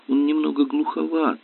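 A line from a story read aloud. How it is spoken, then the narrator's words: Muttered. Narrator (Russian): пробормотал Дональд Керк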